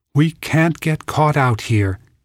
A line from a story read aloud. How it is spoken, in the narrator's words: said urgently